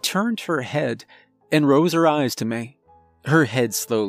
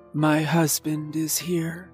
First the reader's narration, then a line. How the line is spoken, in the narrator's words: said softly